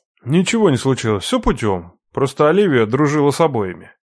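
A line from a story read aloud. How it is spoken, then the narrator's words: Grumbling. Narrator (Russian): ворчал Хасан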